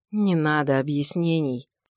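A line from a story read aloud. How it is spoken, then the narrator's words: Weary dismissive old man. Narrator (Russian): устало отмахнулся старый лекарь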